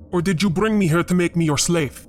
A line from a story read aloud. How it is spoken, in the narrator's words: He growled